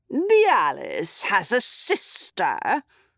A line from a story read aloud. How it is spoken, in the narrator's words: snarled the queen